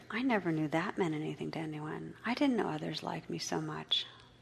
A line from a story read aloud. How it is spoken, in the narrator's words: whispered